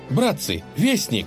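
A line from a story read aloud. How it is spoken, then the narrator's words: Excited young man. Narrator (Russian): взволнованно сказал молодец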